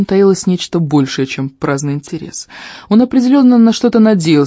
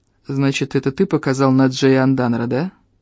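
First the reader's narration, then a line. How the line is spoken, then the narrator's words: Bored tone. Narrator (Russian): Скучающим тоном произнес он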